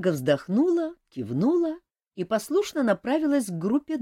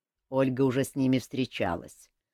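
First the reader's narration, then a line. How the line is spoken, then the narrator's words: Grumbling. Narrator (Russian): проворчал Элмар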